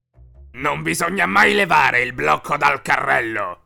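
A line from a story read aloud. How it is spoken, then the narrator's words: Angry monster growling. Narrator (Italian): ringhiò il mostro arrabbiato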